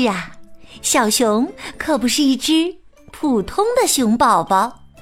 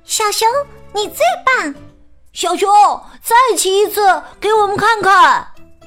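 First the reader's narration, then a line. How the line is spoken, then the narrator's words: Children shouting loudly. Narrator (Chinese): 小伙伴们站在台下大声的喊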